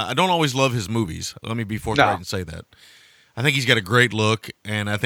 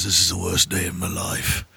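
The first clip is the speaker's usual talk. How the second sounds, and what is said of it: Imitates another person's voice. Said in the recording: “It's my Jason Statham impersonation.”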